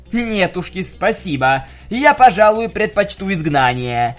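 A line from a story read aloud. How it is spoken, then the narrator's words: Shouting. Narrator (Russian): крикнула Скуталу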